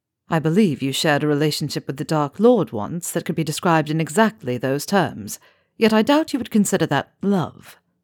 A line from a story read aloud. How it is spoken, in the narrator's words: Draco observed dryly